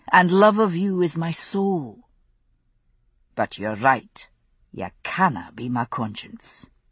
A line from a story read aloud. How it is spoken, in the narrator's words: said softly